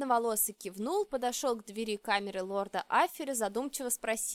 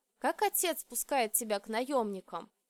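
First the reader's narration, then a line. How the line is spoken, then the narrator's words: Sad wry smirk. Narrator (Russian): Я грустно усмехнулась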